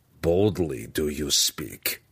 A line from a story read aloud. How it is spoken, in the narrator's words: growled through a grimace